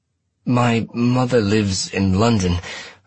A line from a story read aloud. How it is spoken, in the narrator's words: I said, and my voice sounded strained even to my ears